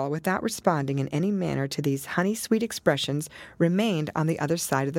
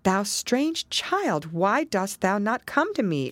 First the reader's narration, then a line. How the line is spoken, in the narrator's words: exclaimed Hester